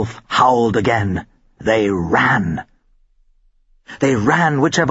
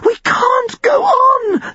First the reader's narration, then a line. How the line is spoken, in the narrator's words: Jill almost sobbed the words